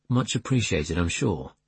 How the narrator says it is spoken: Simon muttered

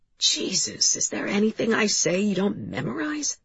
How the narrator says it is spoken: He said, his voice hoarse

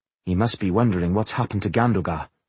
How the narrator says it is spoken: Belindis said softly to Tungdil

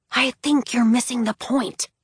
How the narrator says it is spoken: Scarlet whispered

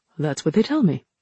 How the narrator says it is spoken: Jiang said

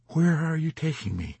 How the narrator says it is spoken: he asked in a soft voice with timidity and guilt

